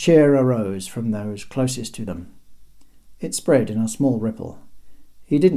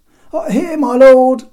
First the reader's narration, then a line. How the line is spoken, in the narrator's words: called out Ziba, panting